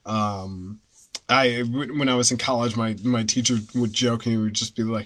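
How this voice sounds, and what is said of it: Neutral American accent. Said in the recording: “my particular accent is the news ... kind of this like New England, like I guess, like kind of sorta neutral, very like neutral American accent”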